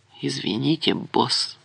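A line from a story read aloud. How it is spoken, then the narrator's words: Muttered. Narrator (Russian): Лапин даже посмотрел на него с сочувствием и пробормотал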